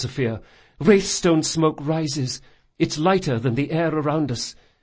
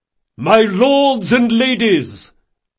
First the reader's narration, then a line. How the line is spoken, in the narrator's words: Reynard bellowed at the top of his voice